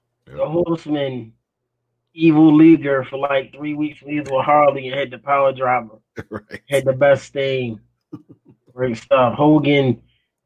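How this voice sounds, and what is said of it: Rough, congested voice. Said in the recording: “My voice is jacked up because of allergies”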